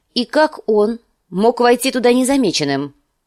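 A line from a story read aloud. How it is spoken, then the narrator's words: Sharp question. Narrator (Russian): спросила Кейтилин резким тоном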